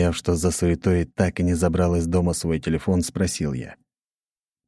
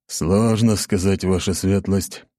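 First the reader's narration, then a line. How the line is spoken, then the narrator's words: Reluctant grumble. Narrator (Russian): неохотно проворчал Ротай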